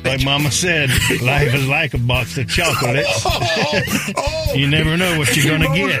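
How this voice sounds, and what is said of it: Forrest Gump impression. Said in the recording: “my best Forrest Gump impression”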